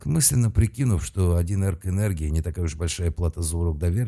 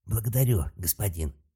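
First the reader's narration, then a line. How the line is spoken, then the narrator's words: Pleased young man. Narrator (Russian): сказал совершенно довольный парень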